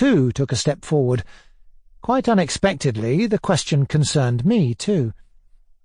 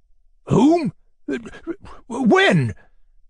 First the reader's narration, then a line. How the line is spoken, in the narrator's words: cried the fat man, all of a flutter